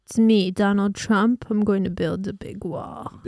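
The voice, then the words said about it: Imitates another person's voice. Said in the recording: “I don't know how to do his voice.”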